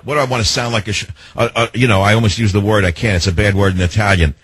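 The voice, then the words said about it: New York accent. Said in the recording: “I have a bigger New York accent than she does ... it sounds like you live right next door ... he's too New York”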